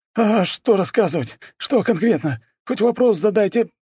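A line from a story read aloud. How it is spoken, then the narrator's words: Forced out. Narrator (Russian): выдавил он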